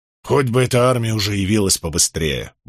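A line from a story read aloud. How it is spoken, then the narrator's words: Grumble. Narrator (Russian): буркнул Барак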